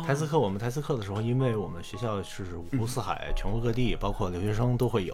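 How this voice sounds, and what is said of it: Trained standard Mandarin, no Beijing accent. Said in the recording (Chinese): “你这声音……好像是经过一些什么样的训练，他那个声音并不是有北京口音，而是一种非常规训的、非常有收束感的一种声音……台词课”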